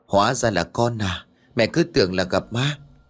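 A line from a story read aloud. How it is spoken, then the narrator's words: Suppressing fear, relieved. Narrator (Vietnamese): Bà cố đè nén nỗi sợ hãi rồi hồn hề nói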